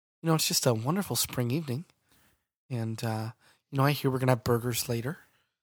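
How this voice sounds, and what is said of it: Calm, soothing public-radio announcer voice. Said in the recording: “Let's do our calm voice today. Let's do a nice, let's pretend that we are on NPR. We have a lovely radio voice today.”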